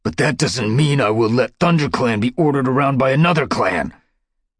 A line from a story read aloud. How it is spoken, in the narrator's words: snarled Dustpelt